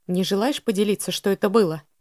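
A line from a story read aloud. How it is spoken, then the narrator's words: Plain. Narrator (Russian): спросил он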